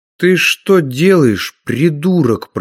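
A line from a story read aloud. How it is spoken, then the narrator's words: Hissed. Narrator (Russian): прошипел он нападавшему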